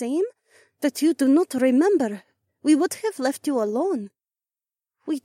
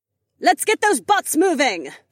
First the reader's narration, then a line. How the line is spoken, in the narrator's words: Kat yelled from the bottom of the staircase